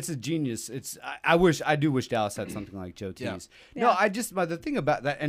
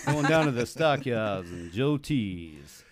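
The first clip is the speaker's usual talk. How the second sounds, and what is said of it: Put-on exaggerated Southern accent. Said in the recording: “I don't think that's the right accent. ... That's a very, that's way south. ... It started strong, though.”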